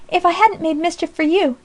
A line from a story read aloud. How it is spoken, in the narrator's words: cried Polly, recovering herself hastily